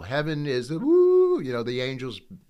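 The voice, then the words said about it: Brief bad falsetto singing. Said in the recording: “bad falsetto, sorry”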